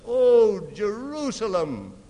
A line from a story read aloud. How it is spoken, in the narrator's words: cried